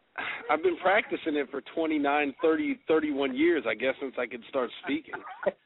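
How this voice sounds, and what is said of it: Texas accent. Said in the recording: “you got a pretty good Texas accent there”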